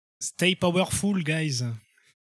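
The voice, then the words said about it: Put-on French accent. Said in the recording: “with a full French accent ... That sounds pretty accurate.”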